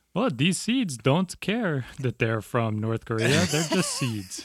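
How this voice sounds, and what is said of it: Put-on Norwegian accent. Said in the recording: “your Norwegian accent is on point”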